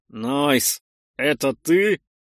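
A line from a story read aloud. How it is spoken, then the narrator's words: Through gritted teeth. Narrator (Russian): сквозь зубы спросил я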